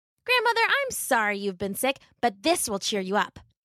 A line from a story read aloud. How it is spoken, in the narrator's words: she said happily